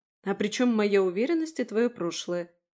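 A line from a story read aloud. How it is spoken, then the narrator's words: Snorted aloud. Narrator (Russian): фыркнула я уже в голос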